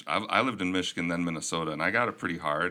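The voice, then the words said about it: Minnesotan Midwestern accent. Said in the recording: “my Minnesotan accent is coming through ... He sounds like he's from the Midwest”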